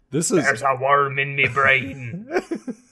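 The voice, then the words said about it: Put-on Jamaican accent, pirate-like. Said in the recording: “Is that your Jamaican? ... That's my best Jamaican accent. ... Your Jamaican accent is basically a pirate.”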